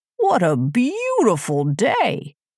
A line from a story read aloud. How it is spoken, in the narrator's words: exclaimed the sun happily